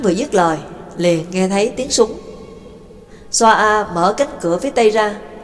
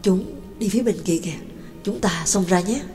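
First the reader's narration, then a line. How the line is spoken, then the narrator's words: Whisper. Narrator (Vietnamese): Trương Lộc thì thầm nói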